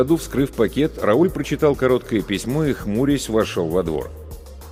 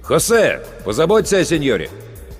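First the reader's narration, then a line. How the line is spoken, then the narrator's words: Shout. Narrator (Russian): Он крикнул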